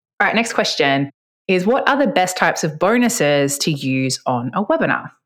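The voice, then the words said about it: Speaks fast with an accent. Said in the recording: “i speak fast and i have an accent ... you just don't hear it because of my accent.”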